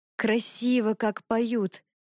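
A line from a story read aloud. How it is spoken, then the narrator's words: Admiring sigh. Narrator (Russian): восхищенно вздохнул Иван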